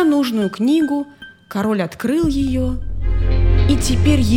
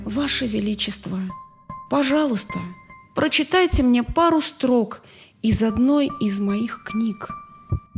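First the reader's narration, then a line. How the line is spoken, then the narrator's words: Very faint whisper. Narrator (Russian): тот человек тихо-тихо прошептал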